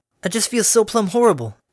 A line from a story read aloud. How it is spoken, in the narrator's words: Applejack exclaimed